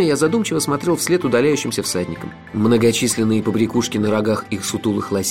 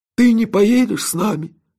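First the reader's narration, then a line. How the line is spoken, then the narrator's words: Sad old man asking. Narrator (Russian): печально спросил старик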